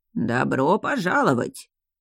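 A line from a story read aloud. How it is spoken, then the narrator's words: Old creaky distant voice. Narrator (Russian): проскрипел старческий голос откуда-то из глубины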